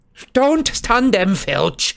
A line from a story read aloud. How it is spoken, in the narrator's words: shouted Umbridge angrily